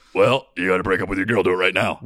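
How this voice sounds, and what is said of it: Very deep, hard-to-understand voice impression. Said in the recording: “Tony Robbins has the deepest voice. You can't even understand the words he's saying. ... that's such a good impression”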